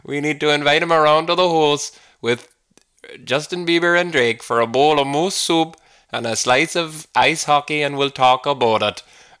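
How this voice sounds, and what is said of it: Poor put-on Canadian Minnesota-style accent. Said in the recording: “that was so bad ... That was so inaccurate and offensive ... My frame of reference for that accent was the accent in Fargo, which is set in Minnesota. It was a Minnesota twang, and even that I butchered”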